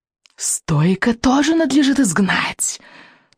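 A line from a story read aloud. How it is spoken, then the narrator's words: Hissing. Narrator (Russian): донесло шипение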